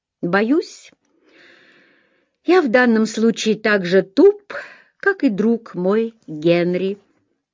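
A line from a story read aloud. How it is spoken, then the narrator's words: Plain. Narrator (Russian): сказал он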